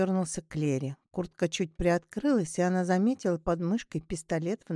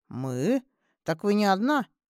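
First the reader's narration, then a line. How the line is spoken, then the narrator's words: Wry snort. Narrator (Russian): Дмитрий хмыкнул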